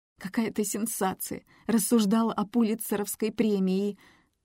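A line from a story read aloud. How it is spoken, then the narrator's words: Sobbing. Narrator (Russian): Она зарыдала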